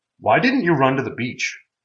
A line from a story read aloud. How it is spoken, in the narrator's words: Jeremy asked